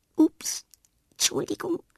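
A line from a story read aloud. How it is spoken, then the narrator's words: Embarrassed murmur. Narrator (German): murmelt verlegen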